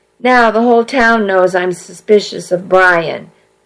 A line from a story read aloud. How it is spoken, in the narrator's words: I moaned